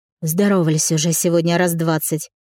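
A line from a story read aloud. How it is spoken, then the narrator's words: Grunted. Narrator (Russian): буркнула Милка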